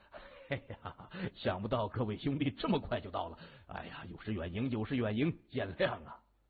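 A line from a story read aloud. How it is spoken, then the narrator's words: Smiling warmly. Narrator (Chinese): 谢文东满脸带笑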